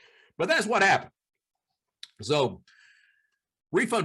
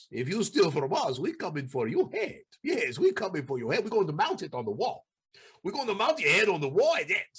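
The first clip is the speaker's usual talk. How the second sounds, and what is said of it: Put-on cartel Ukrainian-style accent. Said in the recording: “I'm doing kind of a cartel Ukrainian type guy accent there”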